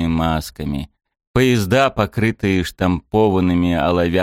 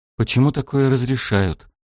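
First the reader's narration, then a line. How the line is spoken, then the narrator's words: Breathed out. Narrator (Russian): выдохнул Шем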